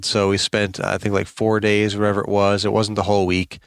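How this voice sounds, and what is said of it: Worn-out, strained voice. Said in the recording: “my voice is kind of shot”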